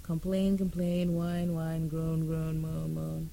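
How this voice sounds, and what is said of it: Odd, strained dry-throated voice. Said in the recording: “my voice sounds a little odd right now because I've been trying to sing this thing for the past 3 hours ... My throat is dry.”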